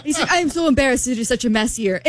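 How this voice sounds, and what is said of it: Put-on Argentinian accent. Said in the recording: “her Argentinian accent? ... I'll stop doing my accent.”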